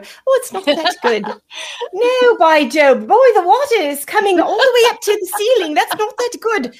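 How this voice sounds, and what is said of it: Poor put-on British accent. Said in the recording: “You must have a little British blood in you ... I have a horrible accent.”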